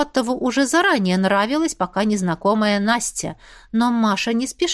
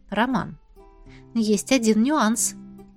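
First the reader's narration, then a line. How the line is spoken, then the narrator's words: Quiet. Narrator (Russian): негромко произнесла она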